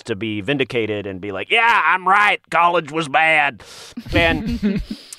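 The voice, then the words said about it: Put-on Southern man accent. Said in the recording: “I do that Southern guy accent”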